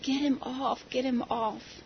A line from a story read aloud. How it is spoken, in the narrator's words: crying and gasping, and she was saying